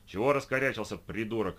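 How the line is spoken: Barking. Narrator (Russian): рявкнула она

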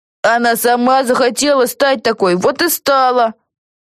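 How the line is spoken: Shouted. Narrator (Russian): крикнул кто-то

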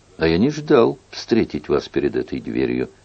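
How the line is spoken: Displeased tone. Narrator (Russian): Генрих сказал недовольным тоном

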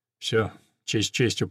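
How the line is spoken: Mumble. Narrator (Russian): пробормотал

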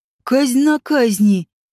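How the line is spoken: Displeased growl. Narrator (Russian): недовольно прорычал Ди Шаралиш

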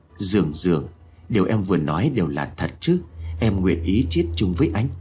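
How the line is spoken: Happy smiling question. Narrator (Vietnamese): khóe miệng của anh ấy mỉm cười vui mừng, hỏi

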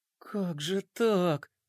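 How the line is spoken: Muttering under breath. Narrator (Russian): бормотала она себе под нос

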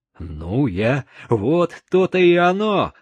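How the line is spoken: Exclaimed. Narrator (Russian): воскликнул Чика

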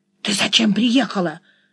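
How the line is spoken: Hiss from bushes. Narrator (Russian): зашипел он из кустов

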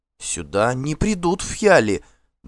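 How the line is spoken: Trembling objection. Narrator (Russian): дрожащим голосом возразила Фрейдис хозяйка

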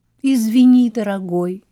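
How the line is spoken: Exclaiming. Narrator (Russian): воскликнула Мими

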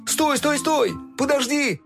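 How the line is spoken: Shouting. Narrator (Russian): закричал Фил

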